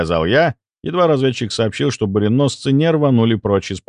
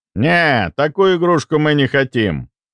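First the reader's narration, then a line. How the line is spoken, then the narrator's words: Grumbling. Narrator (Russian): пробурчал идущий рядом Леонов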